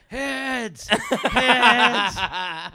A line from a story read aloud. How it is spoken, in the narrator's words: everyone started screaming